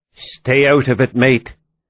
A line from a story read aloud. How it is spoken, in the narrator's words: Doherty, through clenched teeth, said